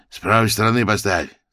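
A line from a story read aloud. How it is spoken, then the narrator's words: Rough intercom voice. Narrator (Russian): сказал домофон шершавым голосом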